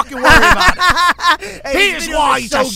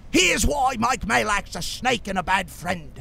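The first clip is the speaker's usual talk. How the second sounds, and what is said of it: Put-on accent. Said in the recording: “Hey, I know what accent you're doing.”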